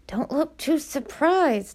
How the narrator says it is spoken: Elia hissed out of the side of her mouth

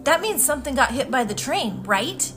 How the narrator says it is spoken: Her voice sounded animated

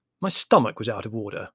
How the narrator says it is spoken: explained Larry coldly

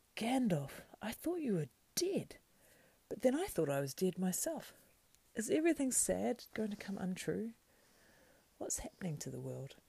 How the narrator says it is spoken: At last he gasped

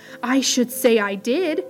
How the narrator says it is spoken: exclaimed

